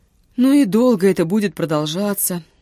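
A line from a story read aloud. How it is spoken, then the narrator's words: Breathless exhale. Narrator (Russian): выдохнул Витюня, едва отдышавшись на привале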